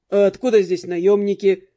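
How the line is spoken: Snorting reply. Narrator (Russian): фыркнул в ответ Дэн

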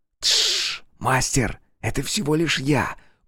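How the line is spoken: Whispered. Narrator (Russian): прошептал Ель

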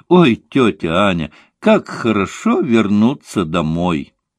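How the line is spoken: Warm affectionate exclamation. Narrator (Russian): Настя обняла ее, поцеловала и очень ласково воскликнула

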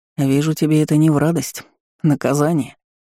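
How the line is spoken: Knowing snort. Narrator (Russian): понимающе хмыкнул Ларм

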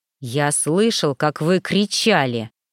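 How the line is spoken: Through gritted teeth. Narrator (Russian): процедил Гордей

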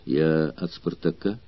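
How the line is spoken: Quiet. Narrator (Russian): тихо ответил Арторикс

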